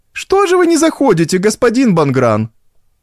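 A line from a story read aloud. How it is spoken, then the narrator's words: Aunt shouting. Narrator (Russian): крикнула тем временем тетушка Бужеваль, проходившему мимо мировому судье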